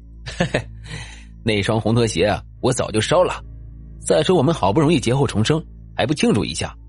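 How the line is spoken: Rueful sigh. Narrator (Chinese): 周卫明一想到那次的事，也不由余叹不已

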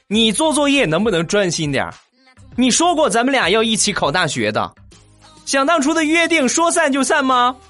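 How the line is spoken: Angry girl shouting. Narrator (Chinese): 小姑娘立马很生气的喊道

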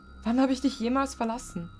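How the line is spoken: Wailing then sobbing. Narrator (German): Ich jammerte, bevor ich erneut schluchzte

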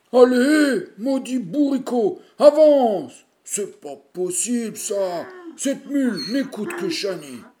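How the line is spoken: Grumbling. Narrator (French): grogne-t-il

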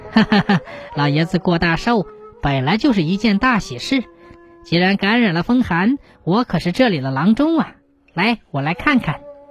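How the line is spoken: Laughing. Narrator (Chinese): 崔振……笑着说

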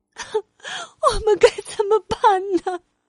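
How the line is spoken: Crying. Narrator (Chinese): 克里姆太太哭着说

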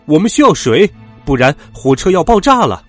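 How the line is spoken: Urgent shout. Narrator (Chinese): 达菲一边紧急刹车一边叫了起来

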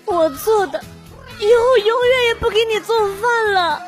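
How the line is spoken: Crying girlfriend. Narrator (Chinese): 女朋友哭着说

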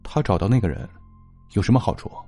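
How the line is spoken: Flat, indifferent. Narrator (Chinese): 蓝素素淡淡的说

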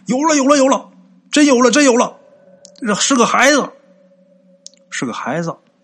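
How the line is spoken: Several men shouting. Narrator (Chinese): 这几个渔夫啊都喊

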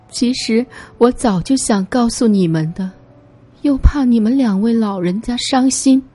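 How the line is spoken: Tearful, sobbing. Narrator (Chinese): 灰夜姬哭哭啼啼的说

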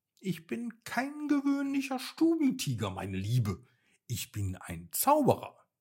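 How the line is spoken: Purring, then speaking. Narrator (German): Muffin schnurrte nur und sagte dann

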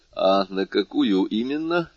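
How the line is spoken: Forced even tone. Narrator (Russian): спросил Моррель, стараясь говорить ровным голосом

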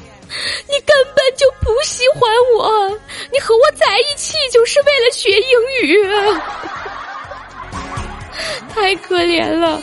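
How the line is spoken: Heart-rending sobbing yell. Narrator (Chinese): 一个老外撕心裂肺的喊叫声，他冲着电话哭吼道

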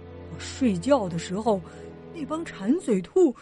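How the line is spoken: Muttering. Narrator (Chinese): 弗瑞德咕哝着

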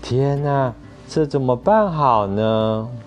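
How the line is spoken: Sighing. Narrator (Chinese): 威洛比先生叹了口气说

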